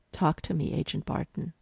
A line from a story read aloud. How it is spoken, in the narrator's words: Coulson in his ear calmly saying